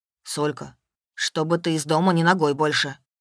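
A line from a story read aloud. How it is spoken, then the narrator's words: Stern. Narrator (Russian): строго сказал Славка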